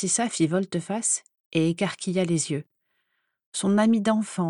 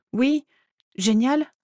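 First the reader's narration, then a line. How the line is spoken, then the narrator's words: Stammered. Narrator (French): bafouilla Narcissa, qui lorgnait toutes les fournitures neuves de Daisy avec envie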